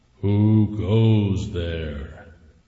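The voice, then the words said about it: Deep, loud booming voice. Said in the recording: “a deep voice called out ... it was loud ... Loud enough to scare away all the snakes.”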